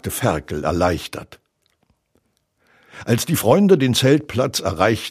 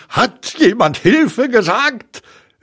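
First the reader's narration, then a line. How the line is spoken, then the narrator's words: Called out. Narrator (German): rief Tigger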